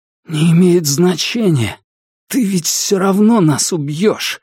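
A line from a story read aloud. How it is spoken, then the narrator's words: Hoarse with pain. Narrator (Russian): сказал он хриплым от боли голосом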